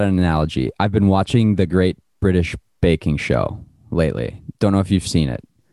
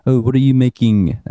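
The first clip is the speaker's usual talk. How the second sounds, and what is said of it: Attempted British accent, sounds French. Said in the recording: “That was my British accent. ... That was French.”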